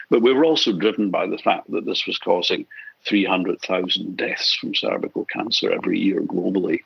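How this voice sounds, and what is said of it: Scottish accent. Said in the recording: “as people would have picked up from your accent, you're not a born and bred Australian ... you actually started out in Scotland”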